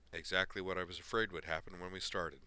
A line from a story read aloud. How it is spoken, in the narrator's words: Griffin finished sadly for her